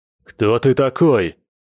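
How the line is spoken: Growl after surprise. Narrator (Russian): рыкнул гость, отойдя от удивления

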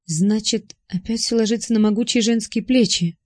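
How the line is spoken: Sighing. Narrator (Russian): вздохнула я

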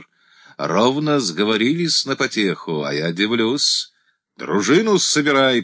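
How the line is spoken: Sharp shout. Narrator (Russian): прикрикнул Игорь

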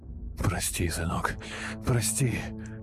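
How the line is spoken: Mumbled apology. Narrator (Russian): бормотал слова извинений

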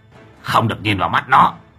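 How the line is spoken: Sharp shout. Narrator (Vietnamese): Lão Hậu quát lên

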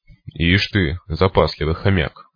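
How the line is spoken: Mocking snort. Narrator (Russian): хмыкнул

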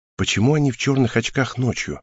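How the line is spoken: Quiet question. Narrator (Russian): тихо спросила меня Хел

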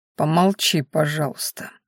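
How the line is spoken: Muffled request. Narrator (Russian): глухо попросил Ранхаш

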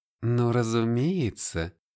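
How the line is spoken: Ingratiating. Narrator (Russian): сказала она вкрадчиво

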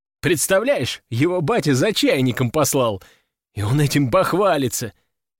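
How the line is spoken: Chuckle. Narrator (Russian): хохотнул я

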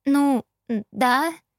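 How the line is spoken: Uncertain female reply. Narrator (Russian): неуверенно ответила я

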